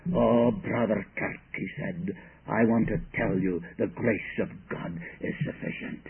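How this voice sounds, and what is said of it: Broad Scottish Highland accent. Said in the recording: “he was a Highlander. He came from the north of Scotland. And he had a broad accent.”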